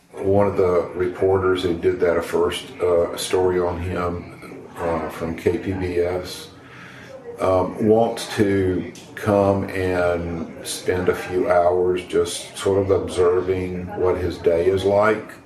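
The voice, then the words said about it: Thick Southern American accent. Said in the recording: “got a thick southern accent”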